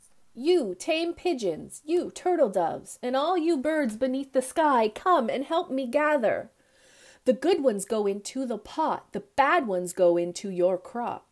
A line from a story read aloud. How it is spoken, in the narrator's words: called out